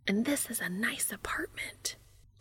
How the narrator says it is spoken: Joe says, also whispering

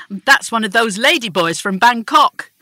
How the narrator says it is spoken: Shelley repeatedly shouting

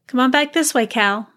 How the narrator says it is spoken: she called, her voice shaky

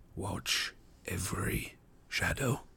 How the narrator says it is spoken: he said in a low voice

